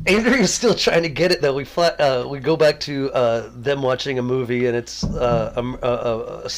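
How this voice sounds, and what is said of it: Usual voice. Nothing is said of it.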